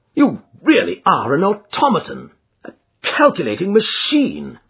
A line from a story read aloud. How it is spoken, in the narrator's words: I cried